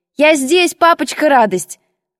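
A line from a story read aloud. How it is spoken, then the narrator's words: Shouted. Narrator (Russian): крикнула я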